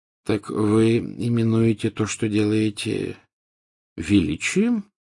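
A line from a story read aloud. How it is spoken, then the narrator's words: Gentle question. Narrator (Russian): мягко спросил Дамблдор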